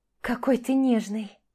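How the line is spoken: Moan. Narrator (Russian): простонала Маша

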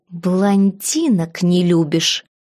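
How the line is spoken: Hissing like wildcat. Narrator (Russian): зашипела я, словно дикая кошка

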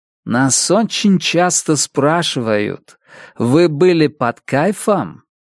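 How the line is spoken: Laughing. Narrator (Russian): Он рассмеялся

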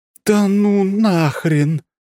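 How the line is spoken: Woman exclaiming. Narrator (Russian): воскликнула

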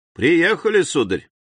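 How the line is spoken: Friendly repeated words. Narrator (Russian): лодочник самым приветливым голосом повторял ему

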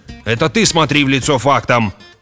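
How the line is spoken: Yelling. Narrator (Russian): завопил Грегор

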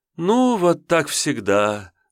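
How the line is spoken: Mock sigh. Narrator (Russian): наигранно вздохнула та

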